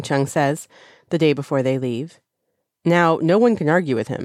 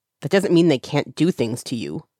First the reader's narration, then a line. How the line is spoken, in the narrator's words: Zheng Cheng snaps